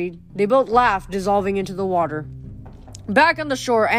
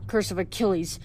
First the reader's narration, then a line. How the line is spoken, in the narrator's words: Hudson snorted